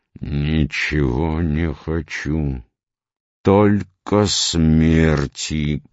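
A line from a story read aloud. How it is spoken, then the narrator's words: Hoarse wheeze. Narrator (Russian): прохрипел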